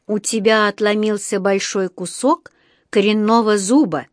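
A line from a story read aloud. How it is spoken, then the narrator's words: Slow, clipped, deliberate. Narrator (Russian): медленно и раздельно отчеканил он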